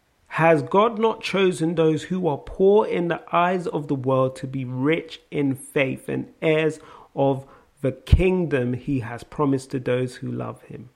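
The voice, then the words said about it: South London accent. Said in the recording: “Must be my South London accent.”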